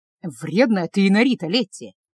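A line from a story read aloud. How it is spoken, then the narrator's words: Grumbling after coughing. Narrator (Russian): Откашлявшись и прополоскав рот, пробурчал Стефана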